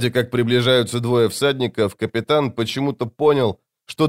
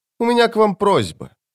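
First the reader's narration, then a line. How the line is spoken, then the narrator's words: Grunted. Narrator (Russian): капитан хмыкнул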